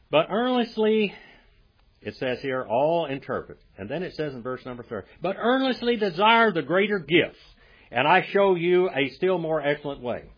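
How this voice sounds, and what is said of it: Southern American accent. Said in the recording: “All southern accents, what I have, all southern accents in southern America, in the south”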